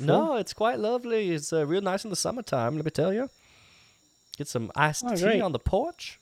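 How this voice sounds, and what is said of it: Georgia accent. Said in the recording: “I love your accent, dude. ... I grew up in Georgia.”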